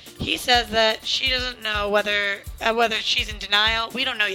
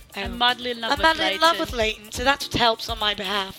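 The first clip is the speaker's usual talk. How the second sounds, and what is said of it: Put-on British accent. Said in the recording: “You have to say it in the British accent.”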